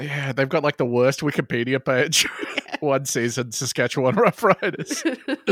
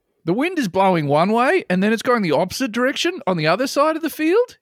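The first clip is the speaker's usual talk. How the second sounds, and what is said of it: Put-on Australian accent. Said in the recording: “I'm going to give him Australian voice. I'll do an Australian accent for this man.”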